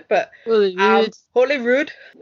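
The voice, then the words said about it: Terrible put-on accent. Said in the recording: “I really should be saying it with an accent... That was a terrible accent.”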